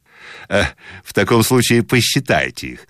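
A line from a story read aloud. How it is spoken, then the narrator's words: About to laugh. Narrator (Russian): сказал он, приготавливаясь смеяться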